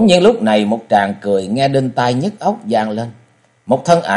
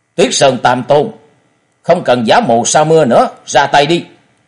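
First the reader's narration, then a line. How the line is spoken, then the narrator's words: Deep-voiced shout. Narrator (Vietnamese): Đồng Bách Nhất Kiếm Tây Môn Tuấn trầm giọng quát lên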